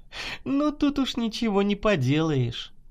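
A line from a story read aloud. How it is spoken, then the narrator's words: Laughing. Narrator (Russian): засмеялась Наташа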